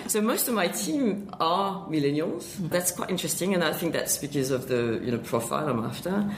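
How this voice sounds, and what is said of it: French accent in English. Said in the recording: “You're French. ... You've still got the accent.”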